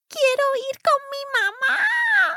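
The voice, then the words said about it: High-pitched trembling child's voice. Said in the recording (Spanish): “con una aguda voz infantil que temblaba”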